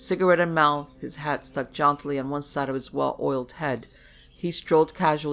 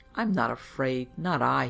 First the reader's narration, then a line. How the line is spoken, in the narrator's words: muttered